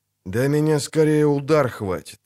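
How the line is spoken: Sincere sigh. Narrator (Russian): Ведьмак, обезоруживающе искренне вздохнул

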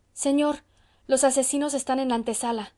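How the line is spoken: Exclaimed. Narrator (Spanish): exclamó Celedonio

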